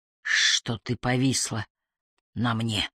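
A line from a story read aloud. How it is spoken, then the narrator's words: Hoarse female wheeze. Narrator (Russian): хрипела она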